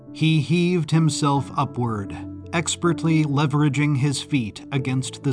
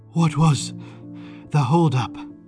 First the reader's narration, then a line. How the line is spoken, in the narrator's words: O'Malley panted